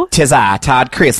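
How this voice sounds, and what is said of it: Imitates another person's voice. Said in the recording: “I have a pretty good Todd accent”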